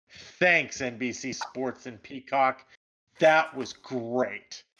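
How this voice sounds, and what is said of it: Sarcastic delivery. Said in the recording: “that was sarcasm.”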